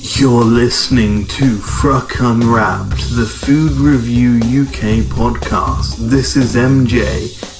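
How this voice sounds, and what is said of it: Silly put-on voice. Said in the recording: “this stupid voice”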